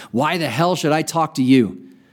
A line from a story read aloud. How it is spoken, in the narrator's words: roared above the clacking wheels